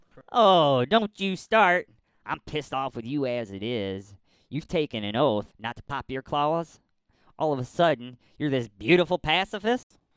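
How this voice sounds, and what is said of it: Put-on Hawkeye character voice. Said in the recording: “Hawkeye is like, don't you start with me. I'm pissed off with you as it is. ... Do a voice.”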